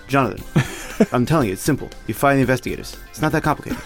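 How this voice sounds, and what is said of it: Put-on Italian New York accent. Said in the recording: “It's like a sort of Italian accent, but sort of New York. ... It's New York. ... I'm kind of doing vaguely like an uncle.”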